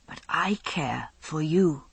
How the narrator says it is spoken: Alex said softly

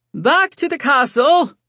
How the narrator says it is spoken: Sebastian yelled

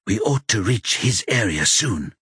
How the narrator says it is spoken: Adam whispers

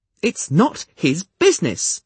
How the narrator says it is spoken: Nettle interjected indignantly

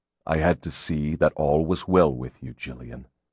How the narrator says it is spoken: he said quietly

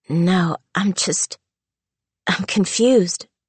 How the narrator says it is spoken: she stammered

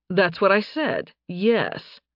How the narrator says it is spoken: Nathan drawled

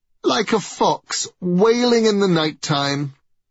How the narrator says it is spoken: exclaimed Baldur, stifling his laughter

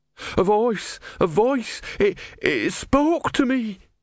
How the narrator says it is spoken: he wailed

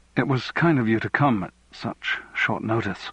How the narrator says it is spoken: he said nervously

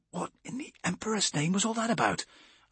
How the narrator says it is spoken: I whispered to Amberley

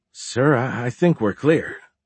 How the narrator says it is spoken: said one of the engineers in a surprised voice, as if he didn't believe it himself

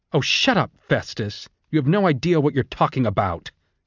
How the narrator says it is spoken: Clemencia spat out

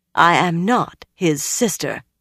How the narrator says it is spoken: Elaine said firmly

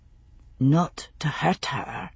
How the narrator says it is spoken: he said, speaking softly

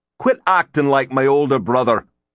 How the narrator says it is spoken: Ronan snapped

